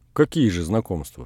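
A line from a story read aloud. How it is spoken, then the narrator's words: Plain. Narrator (Russian): сказал он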